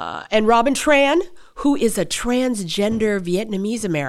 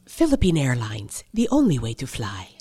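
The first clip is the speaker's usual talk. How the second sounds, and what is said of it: Philippine Airlines announcer voice. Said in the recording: “do that Philippine Airlines voice”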